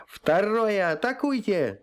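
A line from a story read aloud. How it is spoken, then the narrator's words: Yelled. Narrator (Russian): заорал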